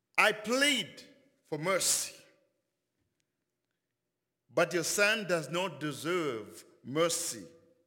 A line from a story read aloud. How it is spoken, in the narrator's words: Napoleon replied